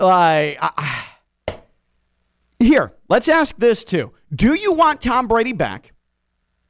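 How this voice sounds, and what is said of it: Usual voice. Nothing is said of it.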